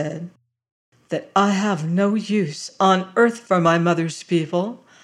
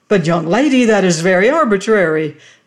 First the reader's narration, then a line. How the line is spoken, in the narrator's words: cried Mr